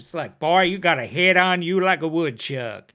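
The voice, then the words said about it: Put-on Texan accent. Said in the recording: “Vastly different accent, you know, like even like a Texan accent.”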